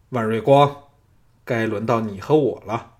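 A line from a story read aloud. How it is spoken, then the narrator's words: Deep, steady voice. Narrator (Chinese): 黄湛沉声说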